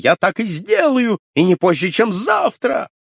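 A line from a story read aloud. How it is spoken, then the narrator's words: Yelling. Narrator (Russian): И он вопил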